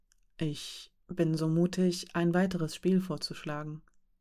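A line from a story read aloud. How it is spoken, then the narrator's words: Plain. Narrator (German): sagte Rasch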